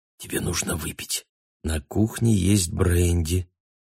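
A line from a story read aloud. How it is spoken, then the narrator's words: Smiling whisper. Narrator (Russian): Анна улыбнулась ему и прошептала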